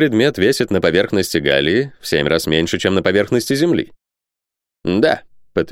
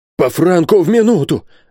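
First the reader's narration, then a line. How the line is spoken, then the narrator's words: Exclaimed. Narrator (Russian): воскликнул Бензуф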